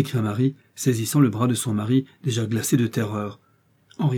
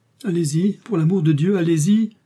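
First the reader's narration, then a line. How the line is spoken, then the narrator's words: Exclaimed. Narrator (French): s'écria Anna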